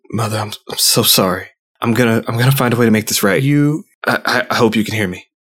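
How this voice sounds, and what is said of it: Whispering. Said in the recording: “whisper to her”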